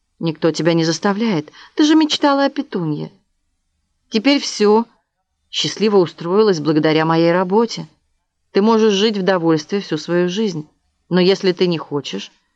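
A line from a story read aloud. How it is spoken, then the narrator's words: Calm tone. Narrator (Russian): повторил он спокойным тоном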